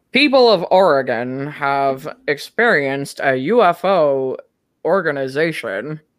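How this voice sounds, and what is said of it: Walter Cronkite impression, somewhat Nixon-like. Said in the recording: “my Walter Cronkite impersonation ... It was a little Nixon-y”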